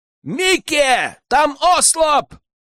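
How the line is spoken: Yell. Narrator (Russian): Заорал

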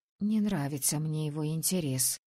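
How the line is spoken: Breathed out. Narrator (Russian): выдохнула я

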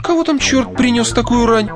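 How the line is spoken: Exclaiming. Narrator (Russian): воскликнула Джан

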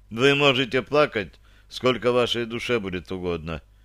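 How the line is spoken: Deliberately indifferent tone. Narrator (Russian): нарочито равнодушным тоном произнес я

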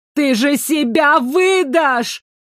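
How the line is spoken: Distant shout across battlefield. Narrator (Russian): крикнули с той стороны поля битвы

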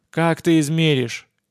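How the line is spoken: Joyless snort. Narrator (Russian): невесело хмыкнул младший Маченко

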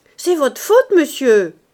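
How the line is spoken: Cook shouting. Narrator (French): criait la cuisinière à Mouret

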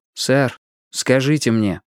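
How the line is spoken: Plain. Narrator (Russian): спросил он

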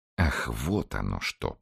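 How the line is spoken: Drawn-out. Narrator (Russian): протянул

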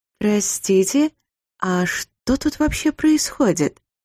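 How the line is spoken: Timid question. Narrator (Russian): Робко спросила я у старшего Мастгури

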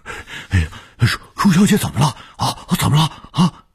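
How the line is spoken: Urgent, anxious old man. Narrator (Chinese): 卢老头急切地说

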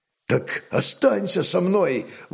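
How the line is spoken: Exclaimed. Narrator (Russian): воскликнул Рарок

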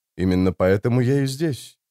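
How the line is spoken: Quiet. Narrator (Russian): тихо продолжал граф

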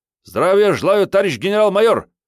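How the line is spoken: Two voices barking in unison. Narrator (Russian): синхронно гаркнули две глотки, проглатывая половину слогов

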